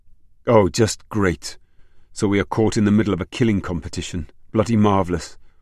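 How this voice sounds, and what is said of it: Welsh-accented outburst. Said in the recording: “He loved the way her Welsh accent always came to the fore in such outbursts.”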